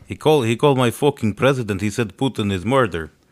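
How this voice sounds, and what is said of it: Put-on Russian accent. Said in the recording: “impersonations anymore of accents ... In Russia, it's still okay.”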